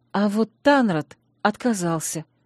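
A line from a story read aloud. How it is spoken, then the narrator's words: Breathed out. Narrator (Russian): выдохнула я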